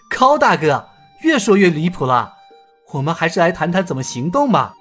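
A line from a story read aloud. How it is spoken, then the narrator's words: Playfully reproachful laugh. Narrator (Chinese): 尹建平嗔笑道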